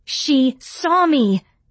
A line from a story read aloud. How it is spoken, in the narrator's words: I didn't realize I was going to shout until it was too late to stop myself